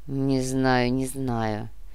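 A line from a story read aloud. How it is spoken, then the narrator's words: Doubtful drawl. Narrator (Russian): с сомнением протянул Гинзбург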